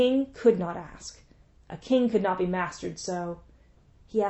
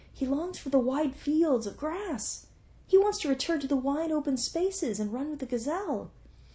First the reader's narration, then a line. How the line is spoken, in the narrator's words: sighed